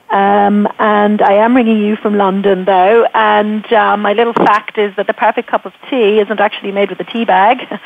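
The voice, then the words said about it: Irish accent. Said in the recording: “you can hopefully hear from the accent that it will be a cup of strong Irish tea”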